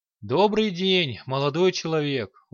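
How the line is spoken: Tired voice. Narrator (Russian): усталым голосом отозвался регент

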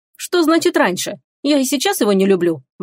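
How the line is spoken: Indignant, snorting. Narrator (Russian): возмутилась Теруми и фыркнула

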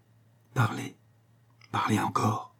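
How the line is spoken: Princess murmuring. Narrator (French): murmura la princesse

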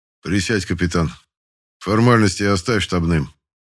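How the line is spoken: Calm. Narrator (Russian): спокойно произнес генерал

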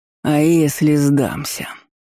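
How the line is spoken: Monster's insinuating voice. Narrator (Russian): вкрадчиво уточнил монстр

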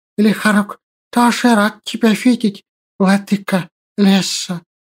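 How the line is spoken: Lisping. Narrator (Russian): прошепелявил

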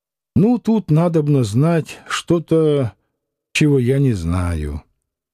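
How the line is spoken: Sighing mutter. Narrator (Russian): вздохнул и пробормотал

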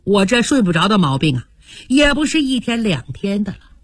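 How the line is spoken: Sighing. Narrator (Chinese): 黛玉叹了口气

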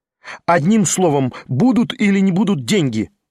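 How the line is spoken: Angry impatient commanding shout. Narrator (Russian): В злобном нетерпении и как бы властно крикнул он на Ставрогина

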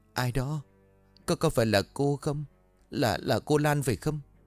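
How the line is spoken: Trembling, broken words. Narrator (Vietnamese): Cô bắt đầu thở rất giọng run rẩy, nói không tròn chữ

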